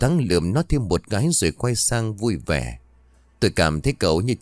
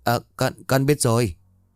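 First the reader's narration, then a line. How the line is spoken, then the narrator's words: Trembling, halting voice. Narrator (Vietnamese): Miệng của nó run rẩy rồi ngắt quãng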